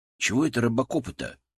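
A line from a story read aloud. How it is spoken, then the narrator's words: Sullen low mutter. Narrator (Russian): хмуро буркнул Коля в полголоса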